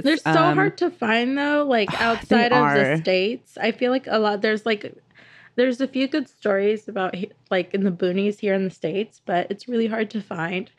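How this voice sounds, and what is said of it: Sick, rough-sounding voice. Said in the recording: “My voice sounds terrible. I'm a little bit sick”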